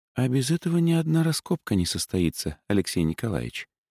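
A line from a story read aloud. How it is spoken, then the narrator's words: Whisper. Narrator (Russian): она шепнула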